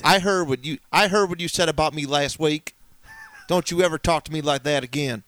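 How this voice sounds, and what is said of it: Gruff mocking imitation of co-host's accent. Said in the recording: “mocking me in my accent ... I was kind of going like with a Terry Funk vibe, and my voice isn't as soft and sweet”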